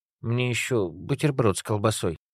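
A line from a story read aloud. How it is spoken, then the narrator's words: Uncertain request. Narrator (Russian): неуверенно попросил молодой человек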